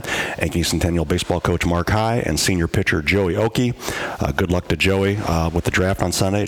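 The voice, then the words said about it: Slightly hoarse voice. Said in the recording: “my voice being a little hoarse today”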